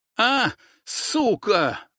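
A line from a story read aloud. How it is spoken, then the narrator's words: Shouted curse. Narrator (Russian): выкрикнул он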